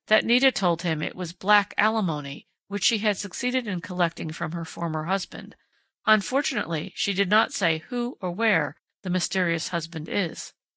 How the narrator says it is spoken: Dundee answered dryly

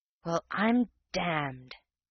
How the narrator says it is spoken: whispered the real man

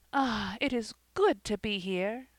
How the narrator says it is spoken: She drew a deep breath and exclaimed, almost involuntarily

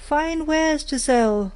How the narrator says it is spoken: she cried

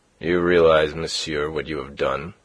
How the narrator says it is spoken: said he coldly to Philippe

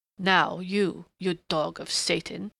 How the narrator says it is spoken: he snarled in a sudden snapping of restraint

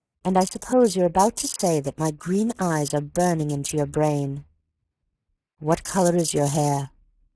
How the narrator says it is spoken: he asked intently

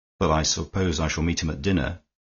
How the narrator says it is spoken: said Horne Fisher in a slightly more serious tone than he had used to the others

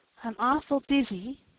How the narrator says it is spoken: said Diana

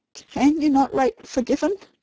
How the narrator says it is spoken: asked Nurse Rosemary brokenly

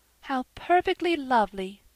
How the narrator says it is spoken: sighed Diana

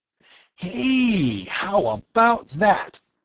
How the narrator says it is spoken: Bud exclaimed happily

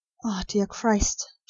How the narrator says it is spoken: she whispered

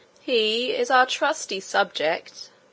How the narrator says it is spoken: said the king himself, in a slow and stately voice

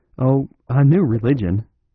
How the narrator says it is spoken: said Flambeau, laughing

